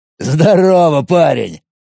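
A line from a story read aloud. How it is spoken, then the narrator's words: Growling. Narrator (Russian): прорычал Владимир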